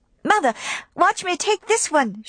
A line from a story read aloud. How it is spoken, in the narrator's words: cried